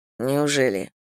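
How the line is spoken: Muttering. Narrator (Russian): пробормотал Зейн

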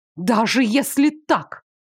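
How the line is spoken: Hissing. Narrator (Russian): прошипела

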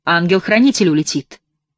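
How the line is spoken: Sudden stern serious boom. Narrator (Russian): Голос его грянул неожиданно, но так строго и серьезно, словно профессор долго взвешивал свои слова

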